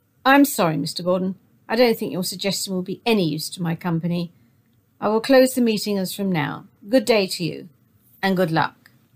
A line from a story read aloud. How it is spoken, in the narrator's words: He looked sternly at Jack Gordon and said